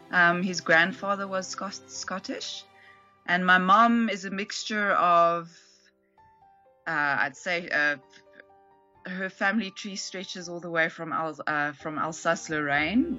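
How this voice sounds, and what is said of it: South African English accent. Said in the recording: “I quite noticed the Scottish accent... It's more UK accent... We speak a very South African English here that's obviously very influenced by British English, but also I speak Afrikaans as well... so I have a bit of that in my accent as well.”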